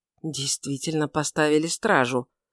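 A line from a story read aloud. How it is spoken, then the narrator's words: Muttered. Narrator (Russian): пробормотал он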